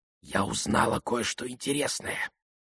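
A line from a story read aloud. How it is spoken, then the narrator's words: Whispered. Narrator (Russian): сообщила она шепотом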